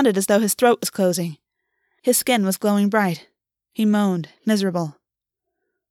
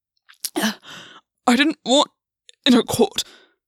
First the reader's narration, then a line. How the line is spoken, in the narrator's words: Gwyn gasped